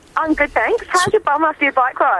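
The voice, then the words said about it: Put-on Australian accent. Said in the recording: “You know you do your Australian accent.”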